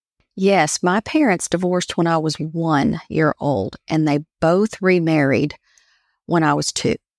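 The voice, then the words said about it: Country Appalachian accent. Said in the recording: “they would tease me how I talked ... I evolved into just straight up country Appalachian accent”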